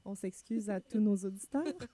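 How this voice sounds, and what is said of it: Extremely soft voice. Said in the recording (French): “avec une voix extrêmement douce”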